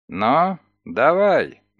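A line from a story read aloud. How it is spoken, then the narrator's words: Gloomy, curt. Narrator (Russian): мрачно бросил он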